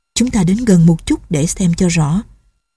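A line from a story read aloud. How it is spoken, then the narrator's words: Quiet. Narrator (Vietnamese): Doanh Doanh nói khẽ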